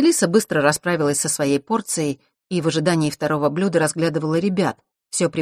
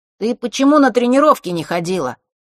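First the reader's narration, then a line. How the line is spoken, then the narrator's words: Shouted. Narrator (Russian): крикнул тот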